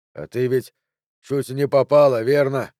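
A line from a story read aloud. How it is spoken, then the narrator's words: Forced smile through pain. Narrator (Russian): Джо выдавил из себя улыбку, несмотря на боль в подкашивающихся ногах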